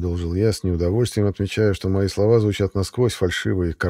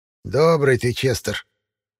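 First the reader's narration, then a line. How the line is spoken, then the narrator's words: Disapproving hiss. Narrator (Russian): неодобрительно прошипела Баба-Яга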